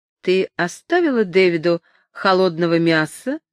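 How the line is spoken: Plain. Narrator (Russian): спросила она

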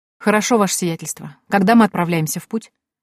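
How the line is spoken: Calm question. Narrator (Russian): спокойно поинтересовалась я

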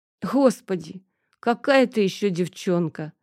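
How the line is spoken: Laughing. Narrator (Russian): рассмеялся он

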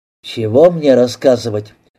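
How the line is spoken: Agonized moan. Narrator (Russian): Резванов опять мучительно простонал

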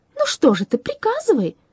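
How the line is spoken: Exclaimed. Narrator (Russian): воскликнула она

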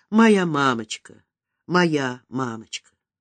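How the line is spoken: Girl whispering through tears. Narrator (Russian): Девочка шептала, плача

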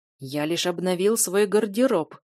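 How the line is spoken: Displeased, through gritted teeth. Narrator (Russian): недовольно процедил Эйд

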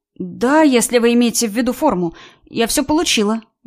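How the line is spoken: Uncertain reply. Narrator (Russian): неуверенно ответила она

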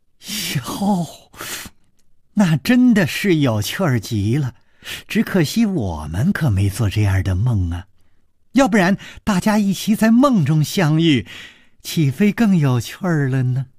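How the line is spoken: Laughing. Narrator (Chinese): 柳无眉笑着说

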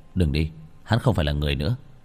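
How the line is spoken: Cold. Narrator (Vietnamese): Bạch Thường kéo nàng lại lạnh lùng

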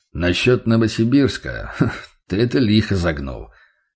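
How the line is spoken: Snort while crunching a rusk. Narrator (Russian): хмыкнул мясник, тоже хрустя сухарем

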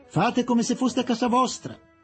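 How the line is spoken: Loud shout from bedroom. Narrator (Italian): Ad alta voce gli gridò dalla camera dal letto

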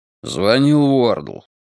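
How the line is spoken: Gloomy. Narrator (Russian): мрачно сообщил Страйк

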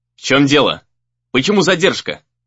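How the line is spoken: Sharp question. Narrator (Russian): резко спросил Дейтин

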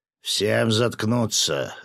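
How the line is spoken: Growled. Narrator (Russian): рыкнул на него рыбак

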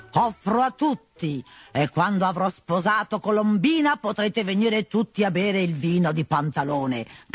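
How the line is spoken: Shouting at full voice. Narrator (Italian): gridava a squarciagola

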